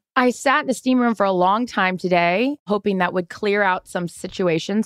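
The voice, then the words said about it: Hoarse voice. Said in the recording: “My voice is still hoarse. ... why I would be this hoarse”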